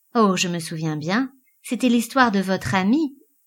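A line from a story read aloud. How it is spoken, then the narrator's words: Curt, dry. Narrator (French): fit sèchement Elisabeth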